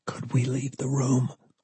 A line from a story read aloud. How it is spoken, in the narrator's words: Lee whispered